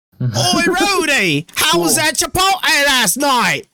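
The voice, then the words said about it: Put-on Australian accent. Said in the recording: “Her voice is going to be Junker Queen from Overwatch, basically. ... doesn't she have an accent? ... It's like Australian.”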